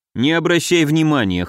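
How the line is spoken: Snort. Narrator (Russian): хмыкнул я

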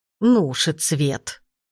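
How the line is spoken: Grumbling old woman. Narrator (Russian): проворчала бабушка

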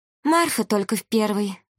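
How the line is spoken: Sad remark. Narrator (Russian): грустно заметила Вилга

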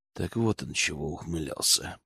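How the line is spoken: Quiet. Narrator (Russian): проговорил я тихо

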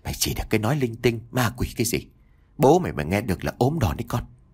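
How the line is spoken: Soft scolding. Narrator (Vietnamese): bà Toán khẽ gắt

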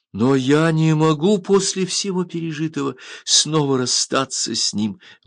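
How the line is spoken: Exclaimed, bursting into sobs. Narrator (Russian): воскликнула она, раздражаясь рыданиями

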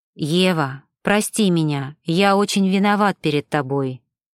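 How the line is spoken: Plain. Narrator (Russian): наконец сказал Макс

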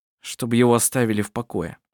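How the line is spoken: Gloomy reply. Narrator (Russian): мрачно ответил Коль

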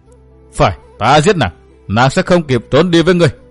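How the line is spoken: Trembling rage, mad laughter. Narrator (Vietnamese): giận run, bật cười cuồng dại

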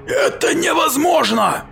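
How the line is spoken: Shout. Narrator (Russian): закричал мейсер

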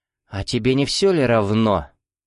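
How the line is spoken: Tired, angry interruption. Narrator (Russian): Устало и зло перебило его Бажена

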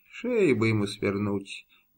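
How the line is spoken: Mutter. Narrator (Russian): бормотал Иван, спотыкаясь в темноте

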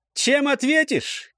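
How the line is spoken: Cheerful proud shout. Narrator (Russian): крикнул весело, зная, спел на славу

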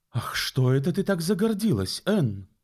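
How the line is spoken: Exclaiming widow. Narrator (Russian): воскликнула вдова Гарланд

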